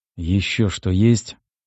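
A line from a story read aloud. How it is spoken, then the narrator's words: Weary question. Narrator (Russian): устало спросил я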